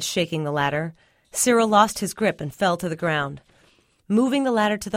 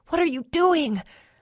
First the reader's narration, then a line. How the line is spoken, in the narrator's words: I choked, smoke stinging my eyes